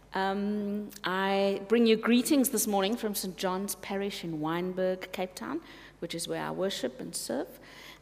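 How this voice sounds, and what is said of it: Speaks with a non-local accent. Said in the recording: “my accent is slightly different to yours”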